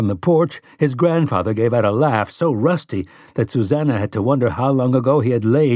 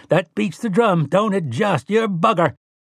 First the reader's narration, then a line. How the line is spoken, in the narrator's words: Tian laughed and cried